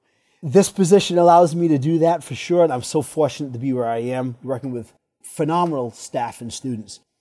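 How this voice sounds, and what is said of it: Rhode Island accent. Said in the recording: “my little Rhode Island accent”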